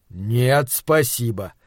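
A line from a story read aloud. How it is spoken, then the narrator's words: Doctor, through gritted teeth. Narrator (Russian): ответил доктор сквозь зубы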